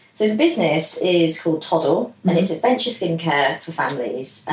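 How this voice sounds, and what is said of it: Husky voice from a cold. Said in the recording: “I've got a bit of a cold today, so I apologise about my voice. Bit husky.”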